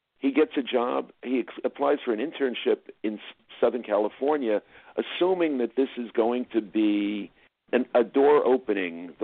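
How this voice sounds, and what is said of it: New Jersey accent. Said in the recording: “which is where I'm from originally, as you can probably tell from my accent... New Jersey”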